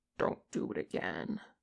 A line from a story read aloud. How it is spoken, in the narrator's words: Kim growled